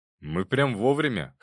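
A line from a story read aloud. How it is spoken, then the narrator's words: Snorting. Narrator (Russian): хмыкнул Любомир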